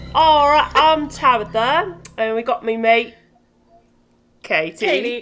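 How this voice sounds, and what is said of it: Put-on Australian accent. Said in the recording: “that sounded so Australian.”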